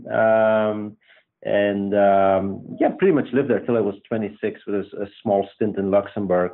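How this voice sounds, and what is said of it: Belgian accent. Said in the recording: “I think you will you will hear this quickly. My accent is Belgian.”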